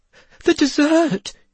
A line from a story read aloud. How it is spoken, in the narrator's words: he cried